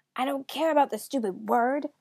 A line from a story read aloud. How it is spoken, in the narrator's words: the third raven cried